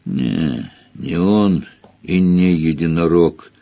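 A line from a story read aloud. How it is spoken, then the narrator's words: Gloomy reply. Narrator (Russian): мрачно ответил Хагрид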